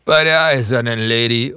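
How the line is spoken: Father calling out. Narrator (German): ruft Martins Vater

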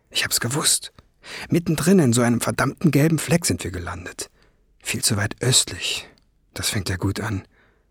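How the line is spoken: Murmur. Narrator (German): murmelte er

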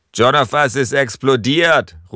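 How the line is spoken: Calling out. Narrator (German): ruft er

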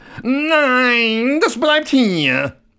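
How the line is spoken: Startled shout. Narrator (German): Koks erschrak und schrie

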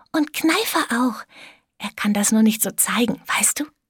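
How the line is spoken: Whisper. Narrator (German): wisperte

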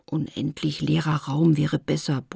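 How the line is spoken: Disappointed grumble. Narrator (German): brummte Lotte enttäuscht

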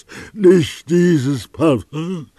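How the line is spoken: Exhausted cry. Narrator (German): rief er wie mit allerletzter Kraft

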